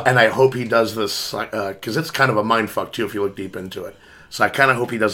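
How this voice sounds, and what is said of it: Rough, gravelly voice. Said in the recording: “apologize for my voice ... He's doing his best Mickey Rourke impersonation ... He sounds like the guy from Independence Day ... Harvey Firestein”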